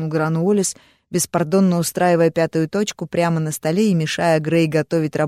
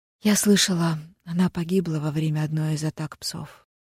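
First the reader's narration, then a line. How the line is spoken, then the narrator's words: Quiet and sad. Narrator (Russian): тихо и печально добавила Алиса Уоллес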